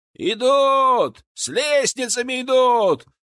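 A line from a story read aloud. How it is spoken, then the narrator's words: Shouting from the wall. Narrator (Russian): закричали рядом со стены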